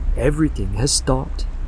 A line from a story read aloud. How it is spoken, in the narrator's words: he said